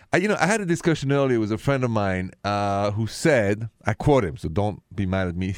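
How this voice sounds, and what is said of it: Thick Parisian French accent. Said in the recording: “The accent is French from Paris... this thick accent”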